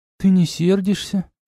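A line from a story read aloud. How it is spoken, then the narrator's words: A cat asking. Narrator (Russian): спросила кошка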